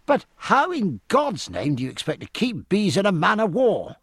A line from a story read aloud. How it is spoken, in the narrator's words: cried